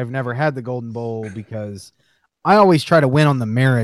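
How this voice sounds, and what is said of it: Usual voice. Nothing is said of it.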